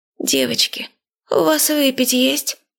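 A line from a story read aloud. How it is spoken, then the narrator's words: Hoarse croak. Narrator (Russian): прохрипела мумия Машкиным голосом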